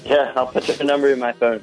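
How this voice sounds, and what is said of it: Flat, unenthusiastic delivery. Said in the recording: “You sound thrilled.”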